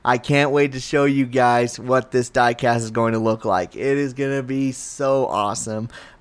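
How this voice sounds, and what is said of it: Strained, struggling voice. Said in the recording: “my voice is now starting to really struggle right now”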